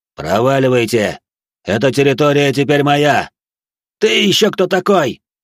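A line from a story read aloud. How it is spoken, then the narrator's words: Barked in reply. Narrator (Russian): рявкнул в ответ Наум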